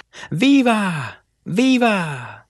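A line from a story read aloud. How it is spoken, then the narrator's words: Men cheering. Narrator (Spanish): gritaron los hombres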